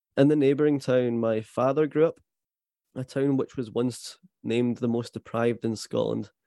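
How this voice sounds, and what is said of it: Scottish accent. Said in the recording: “by my accent, I am very much Scottish”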